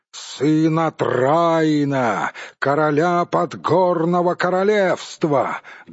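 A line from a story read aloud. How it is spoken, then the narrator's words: Loud shout. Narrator (Russian): громко крикнул он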